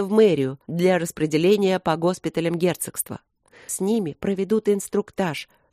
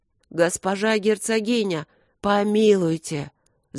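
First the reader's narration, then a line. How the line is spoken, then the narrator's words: Groaning plea. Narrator (Russian): застонал мэр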